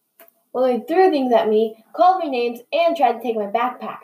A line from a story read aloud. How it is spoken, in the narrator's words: exclaimed Bobber